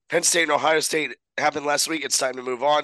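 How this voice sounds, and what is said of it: Raspy, congested voice. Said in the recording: “My voice is raspy. ... I'm dealing with a little bit of a head cold”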